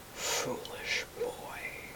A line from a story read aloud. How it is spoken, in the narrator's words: the thing beside him whispered in a voice full of wrath